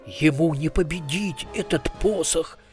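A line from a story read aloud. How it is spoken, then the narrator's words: Hoarse reply. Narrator (Russian): хрипло ответил Хакардли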